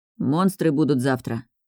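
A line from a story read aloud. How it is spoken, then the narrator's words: Mumble. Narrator (Russian): пробормотал Райан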